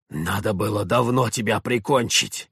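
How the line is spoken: Hoarse rasp. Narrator (Russian): прохрипел он

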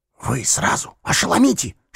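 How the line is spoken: Whisper. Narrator (Russian): шепнул ему Дюковский

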